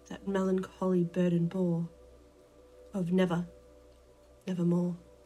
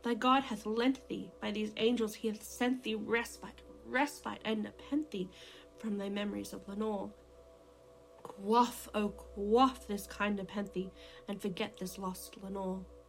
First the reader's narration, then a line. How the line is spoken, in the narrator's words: I cried